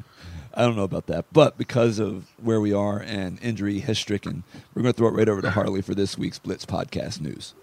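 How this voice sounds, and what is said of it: Sick, unwell-sounding voice. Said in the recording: “I need to be in Chicago Med or something like that ... I sound a lot better than you do ... I actually feel worse than I sound”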